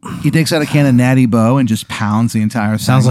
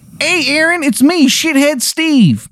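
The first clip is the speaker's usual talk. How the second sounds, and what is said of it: Exaggerated bad Maryland accent. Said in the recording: “He has, without a doubt, the worst Maryland accent you've ever heard in your life.”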